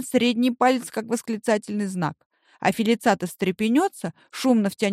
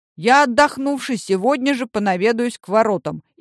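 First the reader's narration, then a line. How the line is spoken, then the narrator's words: Loud. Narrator (Russian): Грознов скажет громко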